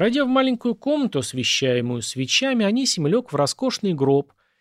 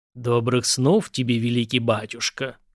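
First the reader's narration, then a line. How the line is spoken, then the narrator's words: Deliberately deep bass. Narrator (Russian): специально еще более низко пробасил Убяр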